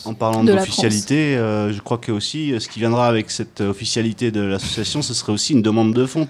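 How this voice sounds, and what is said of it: Southern French accent. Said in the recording (French): “Il y a un accent du sud qui ressort.”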